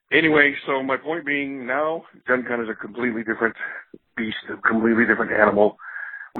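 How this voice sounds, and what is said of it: Hoarse, strained voice. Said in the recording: “my voice is going from a weekend of screaming, shouting, hosting games”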